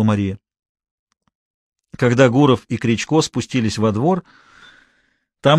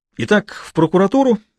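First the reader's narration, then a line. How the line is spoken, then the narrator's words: Cheerful. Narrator (Russian): бодро произнес Кричко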